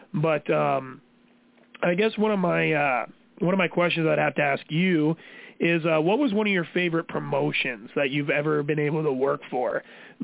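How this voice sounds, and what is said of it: Hoarse, strained voice. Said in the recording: “my voice is a little messed up from the last two shows... I was screaming quite a bit at the crowd. So my voice is very, very gone.”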